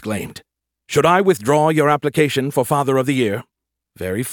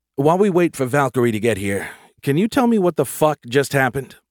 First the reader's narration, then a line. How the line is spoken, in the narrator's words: He sighed